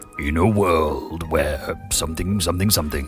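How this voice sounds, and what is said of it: Deep movie-trailer narrator voice. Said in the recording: “that deep voice chap doing this... Oh, it's quite sexy”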